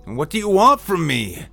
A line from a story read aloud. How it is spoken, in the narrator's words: Andrew shouted at them